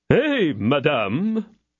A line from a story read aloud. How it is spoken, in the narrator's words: said Porthos haughtily